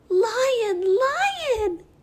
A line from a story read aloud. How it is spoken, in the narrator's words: the bird chirped, delighted